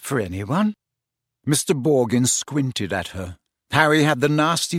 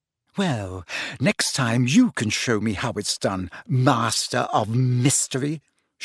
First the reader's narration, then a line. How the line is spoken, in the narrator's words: she snapped